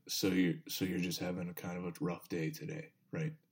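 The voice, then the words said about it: Calm imitated voice of another person. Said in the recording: “he's just so like just calm all the time.”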